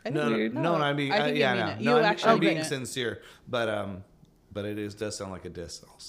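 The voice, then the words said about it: Hoarse, fading voice. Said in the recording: “my voice is slowly disappearing”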